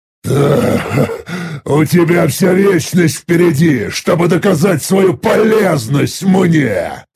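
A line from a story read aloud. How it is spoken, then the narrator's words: Laughing cheerfully. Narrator (Russian): весело рассмеявшись, произнес я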